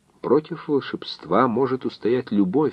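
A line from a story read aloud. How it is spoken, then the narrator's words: Thoughtful. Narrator (Russian): задумчиво вымолвила Гера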